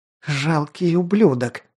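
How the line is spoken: Furious hoarse rasp. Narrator (Russian): прохрипела она, пылая яростью

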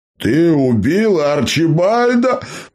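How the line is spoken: Shocked yelling. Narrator (Russian): в шоке заорал шериф

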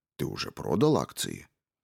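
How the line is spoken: Colonel asking quietly. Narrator (Russian): полковник спросил его тихим голосом

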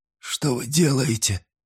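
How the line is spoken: Whisper. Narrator (Russian): прошептал Вайланд

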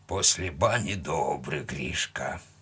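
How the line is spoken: Grumbling. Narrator (Russian): проворчал он

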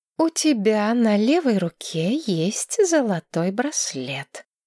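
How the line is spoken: Slow, syllable by syllable. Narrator (Russian): медленно, почти по слогам произнесла Маргарет

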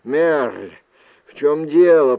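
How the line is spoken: Hoarse rasp. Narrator (Russian): прохрипел Люк

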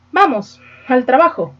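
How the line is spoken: Muffled exclamation. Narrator (Spanish): exclamó el otro con voz sorda

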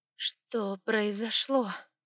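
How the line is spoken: Unexpectedly hoarse question. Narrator (Russian): неожиданно хриплым голосом спросила я

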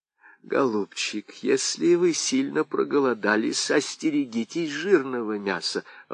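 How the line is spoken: Timid warning. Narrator (Russian): робко предупредила Анна из Томмота

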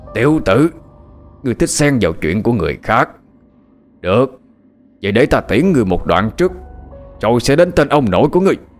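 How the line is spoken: Growled through teeth. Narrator (Vietnamese): Nhân ảnh kia gằn giọng nói

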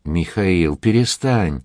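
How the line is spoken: Pleading. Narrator (Russian): умоляющим тоном произнес Шаламов

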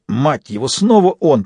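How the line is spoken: Hiss. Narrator (Russian): прошипел Фист

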